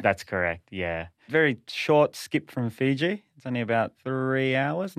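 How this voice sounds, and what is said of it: Australian accent. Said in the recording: “So I detect from your accent Australia.”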